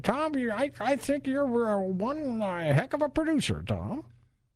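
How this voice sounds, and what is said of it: Weak imitation of another person's voice. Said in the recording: “my Jimmy Stewart impression ... I don't think it's a great impression.”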